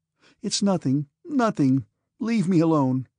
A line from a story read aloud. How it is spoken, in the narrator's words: sobbed Sonya